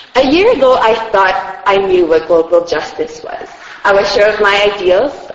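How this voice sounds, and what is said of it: Noticeable accent. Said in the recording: “If my accent gets too thick”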